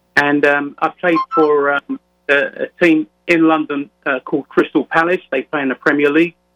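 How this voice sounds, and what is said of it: London English accent. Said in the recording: “you can probably gather from my accent that I was born and raised in London, England”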